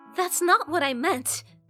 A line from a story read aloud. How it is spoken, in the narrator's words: she exclaimed